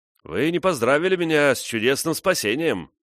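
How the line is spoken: Cheerful. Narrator (Russian): начал весело

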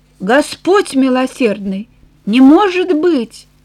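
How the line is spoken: Stunned exclamation. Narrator (Russian): он застыл, а затем воскликнул

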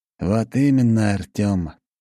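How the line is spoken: Sighing. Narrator (Russian): опять вздохнул граф

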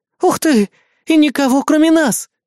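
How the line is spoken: Joyful squeal. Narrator (Russian): Взвизгиваю от радости

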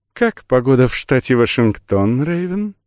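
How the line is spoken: Cooing, for one listener only. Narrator (Russian): проворковала незнакомка так, чтобы слышал ее только я

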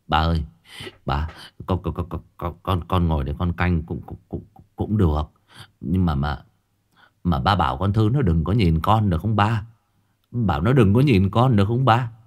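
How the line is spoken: Stammering. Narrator (Vietnamese): Nó lắp bắp

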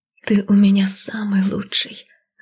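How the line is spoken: Loud whisper. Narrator (Russian): громко шепнула я

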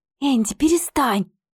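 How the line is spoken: Hissed. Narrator (Russian): прошипела она

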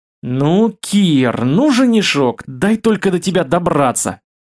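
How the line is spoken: Growling. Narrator (Russian): рыкнула Ольга

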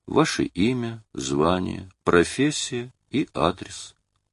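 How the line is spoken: Sad quiet question. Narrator (Russian): блондин грустно тихонько спросил

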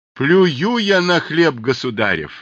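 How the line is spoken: Shouted. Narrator (Russian): закричал Аввакум

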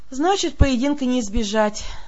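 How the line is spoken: Sighing. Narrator (Russian): вздохнула я

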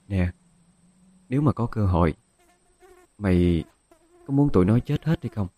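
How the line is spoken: Quiet voice. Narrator (Vietnamese): Dung nói nhỏ

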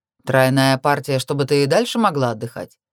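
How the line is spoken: Snorting smirk. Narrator (Russian): хмыкнул Найтвилл

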